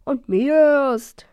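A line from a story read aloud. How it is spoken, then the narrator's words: Laughing admission. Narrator (German): gab noch ein Drache lachend zu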